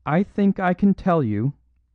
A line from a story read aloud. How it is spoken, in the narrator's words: cried Lady Margaret, in that clear, quivering voice with which a courageous woman speaks publicly